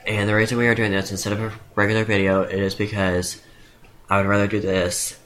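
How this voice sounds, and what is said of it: Congested voice. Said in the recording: “my voice sounds the way it does, it is because I have a cold”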